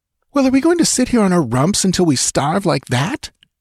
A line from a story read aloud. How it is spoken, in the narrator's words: she cried furiously